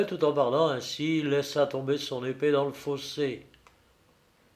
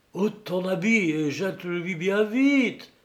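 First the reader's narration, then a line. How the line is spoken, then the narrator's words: Exclaimed. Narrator (French): s'écria Machecour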